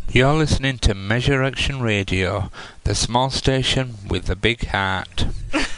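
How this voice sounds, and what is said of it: UK accent. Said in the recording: “It's a UK accent.”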